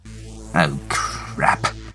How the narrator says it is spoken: she mutters

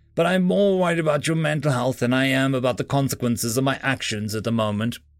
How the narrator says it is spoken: I chuckled slightly

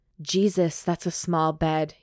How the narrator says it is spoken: he growls

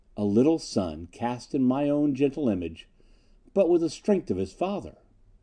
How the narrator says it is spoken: she murmured

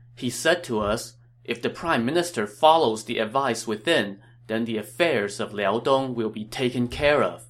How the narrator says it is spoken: Cao Cao read the letter, nodded, and sighed

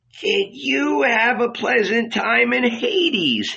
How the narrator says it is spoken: he asked, laughing

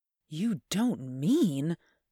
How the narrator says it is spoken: gasped

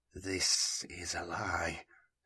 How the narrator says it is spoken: he murmured

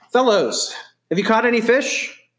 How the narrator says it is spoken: he called out

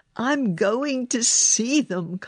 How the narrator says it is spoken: Colin cried

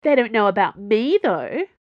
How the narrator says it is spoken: Planchet said cheerfully

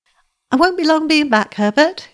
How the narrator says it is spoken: she said, quite cheerfully

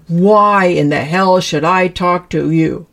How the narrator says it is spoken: belligerently roared

